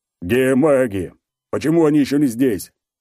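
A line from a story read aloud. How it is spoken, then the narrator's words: Shouting in trained voice. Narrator (Russian): хорошо поставленным голосом кричит Мозов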